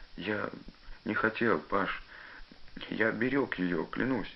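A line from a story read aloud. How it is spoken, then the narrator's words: Tearful wailing. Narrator (Russian): запричитал он сквозь слезы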